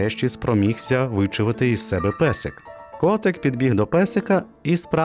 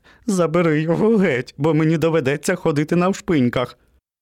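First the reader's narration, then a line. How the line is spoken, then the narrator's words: Cheerful laughing. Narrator (Ukrainian): Котик весело засміявся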